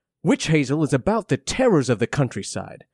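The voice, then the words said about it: Poor imitation of another person's voice. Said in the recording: “in my terrible Matt Berry impression”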